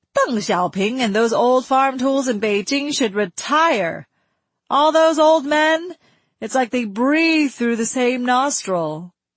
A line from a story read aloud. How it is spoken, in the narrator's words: she shouted